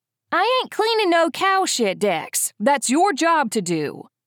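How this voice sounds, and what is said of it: Sweet Southern twang female voice. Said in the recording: “a sweet voice called back ... Southern twang.”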